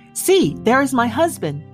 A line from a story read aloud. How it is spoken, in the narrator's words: cried